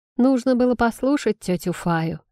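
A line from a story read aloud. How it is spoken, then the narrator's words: Gloomy. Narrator (Russian): мрачно произнес Шейм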